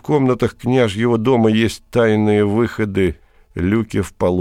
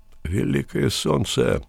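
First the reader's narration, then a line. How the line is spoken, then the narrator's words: Mumble. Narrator (Russian): пробормотал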